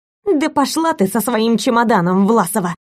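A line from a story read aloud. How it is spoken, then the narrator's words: Venomous snap. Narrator (Russian): Ядовито огрызнулась бывшая подруга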